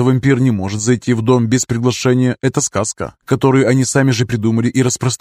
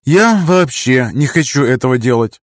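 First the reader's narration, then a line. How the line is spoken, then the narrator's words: Sighing. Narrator (Russian): вздохнула я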